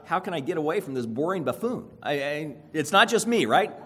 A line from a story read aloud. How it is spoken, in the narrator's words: blurt out